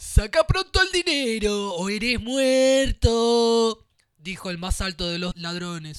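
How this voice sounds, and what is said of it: Usual voice. Nothing is said of it.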